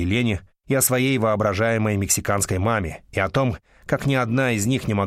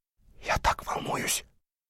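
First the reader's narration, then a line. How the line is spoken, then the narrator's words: Whisper. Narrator (Russian): Гарольд Хилл прошептал тебе, жене мэра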